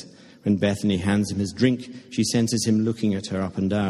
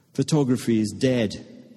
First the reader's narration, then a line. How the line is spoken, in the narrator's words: Ben says with a cough laugh